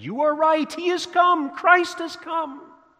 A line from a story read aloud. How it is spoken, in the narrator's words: the trembler suddenly looked up at beaming and he shouted to his friend